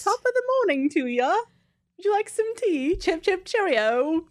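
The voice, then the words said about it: Bad fake British accent. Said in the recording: “my British accent is horrible. It's so bad.”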